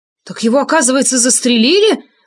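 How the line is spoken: Joyful exclamation. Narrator (Russian): воскликнул я с откровенной радостью в голосе

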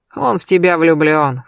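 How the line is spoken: Amused snort. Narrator (Russian): хмыкнул Сергей Львович

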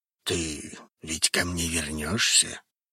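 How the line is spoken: Sudden whispered question. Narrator (Russian): вдруг шепотом спросил Рун

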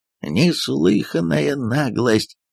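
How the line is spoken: Grumbling. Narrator (Russian): проворчал господин Штут

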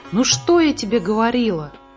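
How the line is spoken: Joyful. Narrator (Russian): радостно сказала Муми-мама

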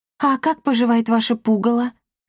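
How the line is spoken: Plain. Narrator (Russian): спросила мальчишек Дарина

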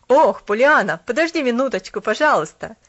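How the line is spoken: Visitor calling out. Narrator (Russian): крикнул посетитель

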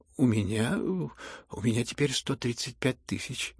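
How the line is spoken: Embarrassed mutter. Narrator (Russian): пробормотал князь, закрасневшись

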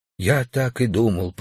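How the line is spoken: Whispering. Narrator (Russian): прошептал

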